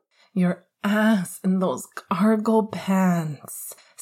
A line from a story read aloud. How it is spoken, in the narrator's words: Sirius groaned